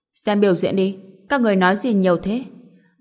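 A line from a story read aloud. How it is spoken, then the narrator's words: Cold embarrassed scolding. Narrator (Vietnamese): Liễu Uyên Hồng xấu hổ mặt đỏ bừng, lạnh lùng mắng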